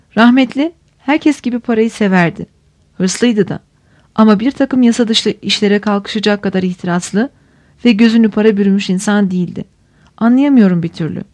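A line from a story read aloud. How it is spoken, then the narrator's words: Sad voice. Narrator (Turkish): Ruhsar üzgün bir sesle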